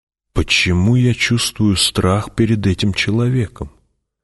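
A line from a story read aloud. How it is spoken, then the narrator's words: Whispered question. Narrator (Russian): Пауль шепотом спросил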